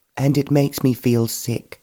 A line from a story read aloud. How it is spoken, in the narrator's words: Georgina exclaimed